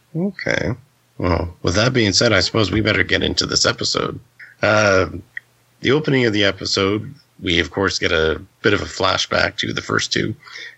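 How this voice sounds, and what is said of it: Raspy, flu-affected voice. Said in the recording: “my voice is still sort of raspy ... getting over this flu that I had last week ... you actually sound like worse this time than last week ... Last week you sounded like Batman, this week you sound like a robot”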